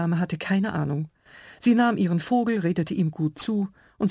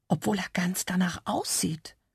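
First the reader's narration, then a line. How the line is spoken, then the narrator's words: Small dinosaur whispering in ear. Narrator (German): flüsterte der Compsognathus mir ins Ohr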